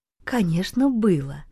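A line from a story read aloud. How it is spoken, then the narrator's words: Gentle, affectionate. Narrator (Russian): ласково произнесла Таня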